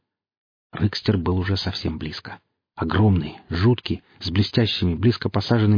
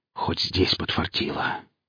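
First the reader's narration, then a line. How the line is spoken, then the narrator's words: Relieved exhale. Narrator (Russian): с облегчением выдохнул сталкер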